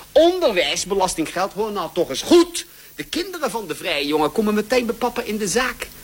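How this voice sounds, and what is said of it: Hague Dutch accent. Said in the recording (Dutch): “dit is dat Haagse accent.”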